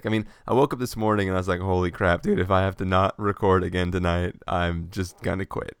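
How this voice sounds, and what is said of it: Sick-sounding voice. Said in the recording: “as people can probably tell from my voice, I uh, I'm also still still kind of sick.”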